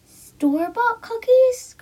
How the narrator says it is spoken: cried the little girl

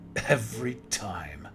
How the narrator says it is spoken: chuckled

